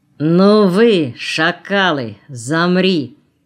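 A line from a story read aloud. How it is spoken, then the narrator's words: Thundering commanding voice. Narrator (Russian): прогремел властный голос рядом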